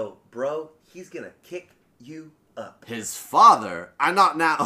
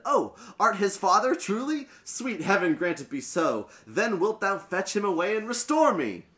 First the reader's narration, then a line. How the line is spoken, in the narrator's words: eagerly said